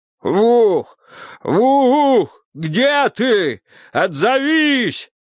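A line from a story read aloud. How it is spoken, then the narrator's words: Frantic screaming. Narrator (Russian): истошно кричал он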